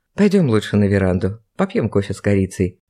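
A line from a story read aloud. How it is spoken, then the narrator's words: Tender male voice. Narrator (Russian): ласково произнес мужчина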